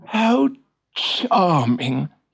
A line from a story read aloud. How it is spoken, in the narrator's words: he sighed